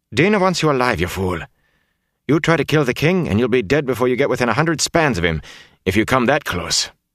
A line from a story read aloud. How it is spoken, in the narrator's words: Zara said sharply